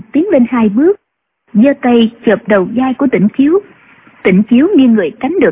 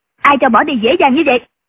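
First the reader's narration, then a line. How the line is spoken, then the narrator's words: Woman shouting. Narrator (Vietnamese): Quan y mỹ nữ quát lên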